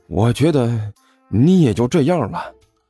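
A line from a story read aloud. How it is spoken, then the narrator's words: Deeply moved sigh. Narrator (Chinese): 甘球感慨万千的叹了一口气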